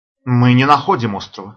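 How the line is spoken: Through clenched teeth. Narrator (Russian): сквозь зубы ответил пилот

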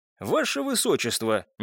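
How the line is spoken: Quiet call. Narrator (Russian): негромко позвал

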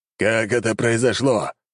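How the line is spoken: Growling. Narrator (Russian): зарычал он

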